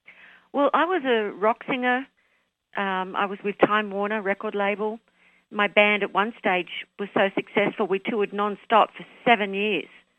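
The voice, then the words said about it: Australian accent. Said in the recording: “you're my second Australian accent ... picking up the accent.”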